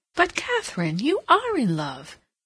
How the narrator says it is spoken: Hilbery could not help exclaiming

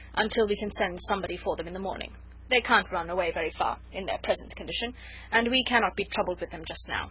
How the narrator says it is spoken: added roughly

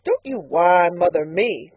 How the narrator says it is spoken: cried Mrs

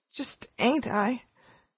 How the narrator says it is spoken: she said in a hoarse voice

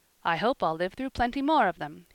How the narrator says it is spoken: he said merrily

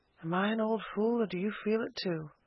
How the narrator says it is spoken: she half whispered

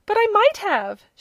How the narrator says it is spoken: she exclaimed

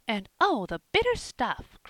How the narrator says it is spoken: cried Polly, with a wry face

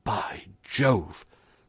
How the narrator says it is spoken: said the constable, in an awed tone of voice

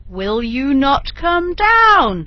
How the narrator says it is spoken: roared Bluebeard

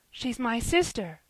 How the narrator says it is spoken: cried Ben

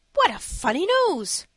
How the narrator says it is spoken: cried the one

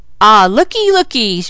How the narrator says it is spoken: Mickey shouted, holding his side with one hand

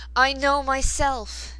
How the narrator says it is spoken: he cried

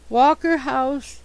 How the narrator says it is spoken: he moaned

